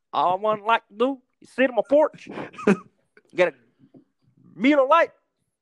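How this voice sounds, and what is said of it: Put-on Mississippi accent. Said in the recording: “your Clayton impression ... what a Brazilian thinks that Mississippi people sound like”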